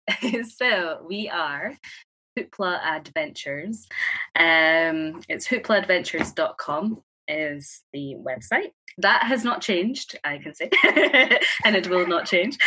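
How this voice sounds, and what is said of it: Scottish accent. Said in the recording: “anyone who can't understand the Scottish accent”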